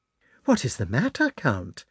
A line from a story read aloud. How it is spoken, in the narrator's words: asked the Countess, in a surprised and commiserating tone